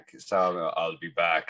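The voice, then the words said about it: Strong Austrian accent impression. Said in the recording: “Getting the old the Arnie impression back ... that was a good Austrian accent ... you're very strong. Very strong.”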